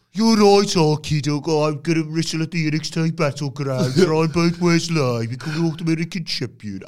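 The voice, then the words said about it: Put-on Black Country accent. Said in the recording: “I can't really do Brummy that well. ... I think it's Black Country, technically.”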